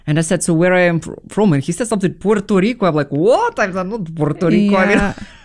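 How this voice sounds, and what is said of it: Non-native English accent. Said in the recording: “you can hear my accent ... yeah, you definitely have accent”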